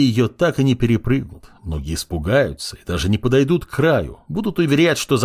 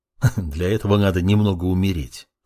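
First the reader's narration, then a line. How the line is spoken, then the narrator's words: Dark disciple's chuckle. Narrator (Russian): хохотнул темный ученик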